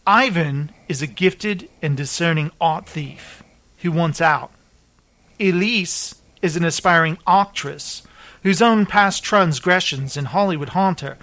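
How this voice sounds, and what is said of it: Reading in a put-on accent. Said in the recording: “Why am I talking in this accent”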